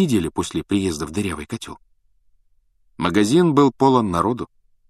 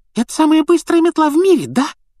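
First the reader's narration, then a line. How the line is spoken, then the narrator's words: Young boy squeaking. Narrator (Russian): пропищал парнишка младше Гарри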